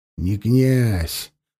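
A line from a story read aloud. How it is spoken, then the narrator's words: Gruff grumble. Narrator (Russian): буркнул Ширам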